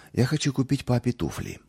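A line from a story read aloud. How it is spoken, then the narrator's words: Timid. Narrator (Russian): робко проговорил он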